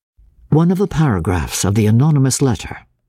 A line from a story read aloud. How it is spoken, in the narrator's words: said